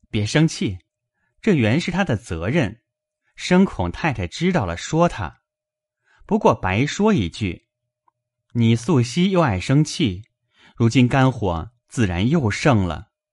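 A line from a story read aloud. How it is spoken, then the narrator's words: Laughing. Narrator (Chinese): 宝玉笑道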